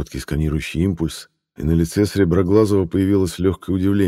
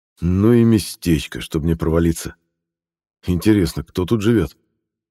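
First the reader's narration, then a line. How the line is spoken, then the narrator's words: Quiet musing with a snort. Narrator (Russian): хмыкнул и негромко сказал то ли себе самому, то ли кому-то еще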